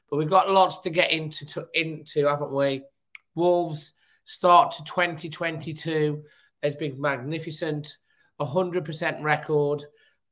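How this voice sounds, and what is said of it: Weak croaky congested voice. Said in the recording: “my voice sounds a little bit weak or croaky tonight... a little bit of an achy throat, bit of a bunged up nose... my voice is not as sparkling as it normally is”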